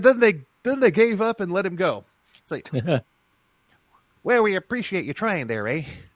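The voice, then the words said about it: Attempted Canadian accent. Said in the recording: “accent there ... should I just not try to do Canadian accent? ... Well, you're on the right track.”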